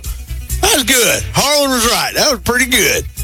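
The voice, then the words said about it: Exaggerated hillbilly accent. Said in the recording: “talks like a hillbilly like that”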